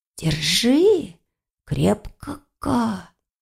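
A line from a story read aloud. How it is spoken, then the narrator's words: Whisper. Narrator (Russian): прошептал он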